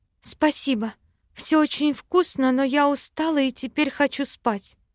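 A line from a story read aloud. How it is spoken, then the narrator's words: Tired exhale. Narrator (Russian): выдохнула я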